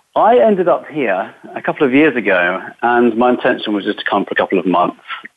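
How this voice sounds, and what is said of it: English accent. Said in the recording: “he has a funny accent. ... I am from England”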